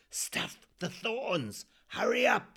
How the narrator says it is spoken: Spike hissed

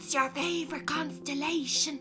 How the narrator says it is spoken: He whisper shouts

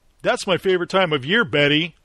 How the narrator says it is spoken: Tritton said, chuckling to himself like a Stepford newscaster

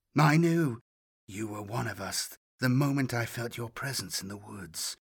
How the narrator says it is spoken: whispered

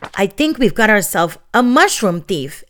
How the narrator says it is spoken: Ellie exclaimed

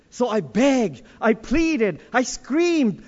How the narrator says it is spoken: I cried

